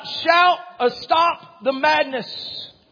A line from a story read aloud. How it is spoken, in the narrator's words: he screams out